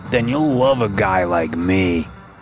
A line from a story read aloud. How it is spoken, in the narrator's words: he slurred